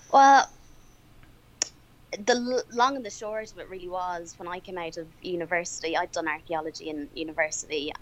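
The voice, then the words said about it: Irish accent. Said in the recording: “your accent. It's a little bit different from mine. ... move from Ireland”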